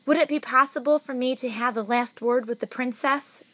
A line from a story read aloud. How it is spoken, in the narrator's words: Despero asked